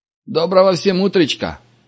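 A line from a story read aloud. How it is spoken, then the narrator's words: Cheerful sleepy greeting. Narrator (Russian): бодро поздоровался заспанный Вася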